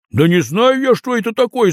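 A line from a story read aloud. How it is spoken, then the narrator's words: Shouted. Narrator (Russian): закричал Тимоха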